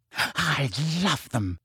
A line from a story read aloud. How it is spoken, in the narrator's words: breathed Rita